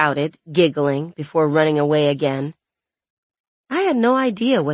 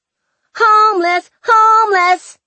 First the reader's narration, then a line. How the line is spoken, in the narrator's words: a few kids shouted at him